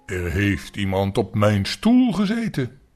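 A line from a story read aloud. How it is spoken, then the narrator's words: Big deep heavy voice. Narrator (Dutch): zei de reusachtig grote beer met grote zware stem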